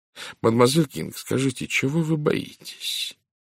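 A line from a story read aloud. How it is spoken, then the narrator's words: Gentle question. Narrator (Russian): ласково спросил Пуаро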